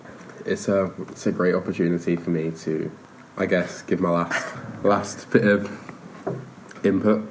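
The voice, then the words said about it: Northern English accent. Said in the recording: “Were you putting on an accent just then? ... This is my northern accent, this is my normal accent. ... I'm from Manchester”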